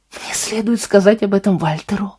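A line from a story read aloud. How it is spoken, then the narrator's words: Whispered. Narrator (Russian): прошептал он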